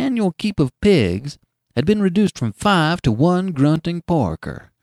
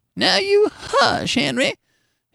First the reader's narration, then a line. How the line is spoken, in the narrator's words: his wife would caution him in a cracked and squeaky voice